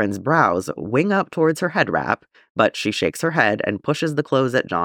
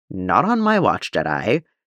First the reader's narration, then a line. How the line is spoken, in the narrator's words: says firmly